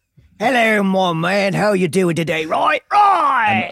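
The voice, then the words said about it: Unconvincing put-on English accent. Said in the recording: “doesn't have a great English accent ... that's not how we sound in this country”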